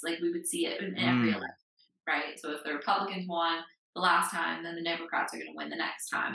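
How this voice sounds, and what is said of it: American accent. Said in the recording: “as you can tell from my accent, I grew up in the United States”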